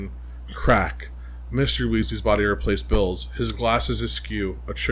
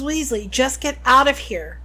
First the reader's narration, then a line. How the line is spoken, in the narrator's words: shouted Harry